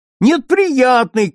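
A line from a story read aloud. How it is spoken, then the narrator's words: Shouting. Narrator (Russian): кричал Бориска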